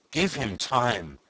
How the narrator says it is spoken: pleaded Maitre Voigt

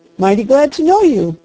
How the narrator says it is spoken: cried the doctor

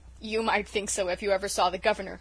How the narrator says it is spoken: chuckled Dan

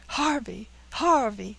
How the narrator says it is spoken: cried Caesar

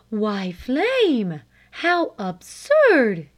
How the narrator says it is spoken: gasped her mother

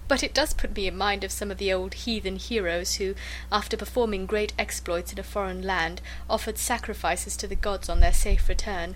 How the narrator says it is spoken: said she, laughing

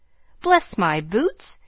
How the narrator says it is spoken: in such a funny way

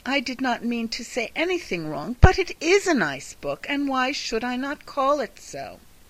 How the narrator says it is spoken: cried Catherine

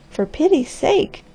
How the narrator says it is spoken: cried the girl

